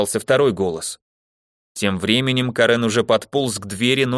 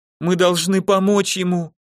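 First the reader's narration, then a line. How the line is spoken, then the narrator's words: Sobbing. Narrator (Russian): кто-то рыдал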